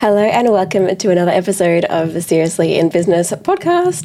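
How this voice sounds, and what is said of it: Sick, slightly altered voice. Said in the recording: “You might notice my voice sounds a little bit different... I have been sick for the past week”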